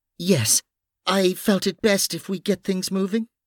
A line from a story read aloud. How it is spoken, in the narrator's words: Noreen added nervously